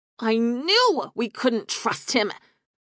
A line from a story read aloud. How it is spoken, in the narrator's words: Sierra spat